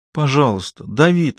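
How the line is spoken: Pleading. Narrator (Russian): взмолилась

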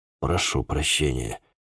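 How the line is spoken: Mumble. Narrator (Russian): пробормотал

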